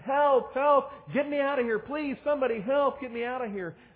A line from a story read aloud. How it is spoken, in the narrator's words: This man was absolutely petrified and he screamed